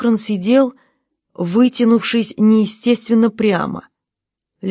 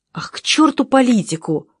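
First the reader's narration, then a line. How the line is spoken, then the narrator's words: Exclaiming. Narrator (Russian): воскликнул Бельмонт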